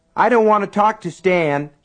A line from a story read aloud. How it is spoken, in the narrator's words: he yelled